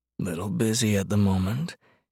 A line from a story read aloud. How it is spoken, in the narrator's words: he murmured into her skin